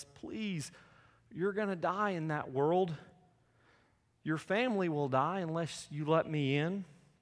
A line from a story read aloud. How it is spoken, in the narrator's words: God pleads